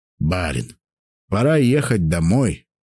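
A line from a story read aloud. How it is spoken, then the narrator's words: Quiet steward speaking. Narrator (Russian): негромко сказал мой управляющий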